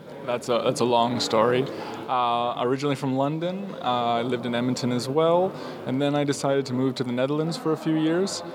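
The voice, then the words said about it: Canadian accent. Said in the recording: “this Canadian accent”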